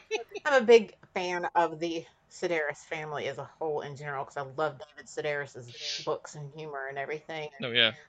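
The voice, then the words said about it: North Carolina accent. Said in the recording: “accent of hers is North Carolina, just like me”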